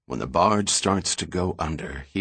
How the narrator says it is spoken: he whispered

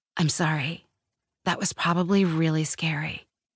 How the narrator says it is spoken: she said into my ear, as calmly as if she were bringing me a bowl of mac and cheese

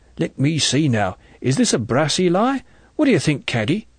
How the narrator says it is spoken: Alfred Blacking chuckled

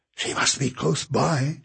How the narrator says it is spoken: Kate whispered

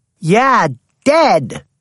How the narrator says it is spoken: yelled Jackie

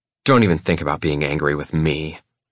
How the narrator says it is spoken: she snarls

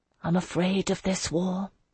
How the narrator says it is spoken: I whispered it

